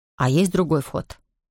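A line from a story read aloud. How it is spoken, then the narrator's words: Plain. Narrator (Russian): спросил Равендер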